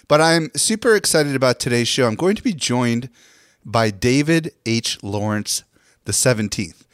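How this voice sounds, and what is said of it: Voice with a slight cold. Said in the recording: “I've got a little bit of a cold”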